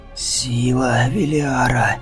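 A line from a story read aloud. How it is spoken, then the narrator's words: Horrified gasp, wounded man. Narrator (Russian): С ужасом выдохнул раненый в живот Бреттер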